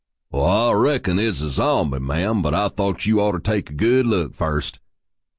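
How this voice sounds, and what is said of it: Texan Western drawl. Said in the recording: “dipping down into my childhood accent, added to a bit by Hollywood Westerns ... my little Texas bunny”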